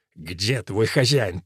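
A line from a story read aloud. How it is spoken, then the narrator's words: Through gritted teeth. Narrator (Russian): процедил Вулфрик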